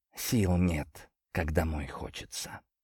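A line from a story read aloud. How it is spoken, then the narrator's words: Whispered joke. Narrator (Russian): пошутил я шепотом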